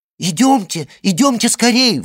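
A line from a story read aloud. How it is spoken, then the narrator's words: Excited exclamation. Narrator (Russian): взволнованно воскликнула Жюли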